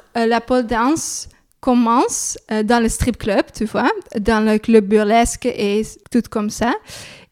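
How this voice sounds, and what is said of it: Slight Dutch accent in French. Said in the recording (French): “avec un petit accent néerlandais”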